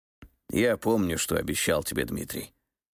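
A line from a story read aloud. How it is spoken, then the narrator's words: Quiet. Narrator (Russian): заговорил Руслан Александрович негромко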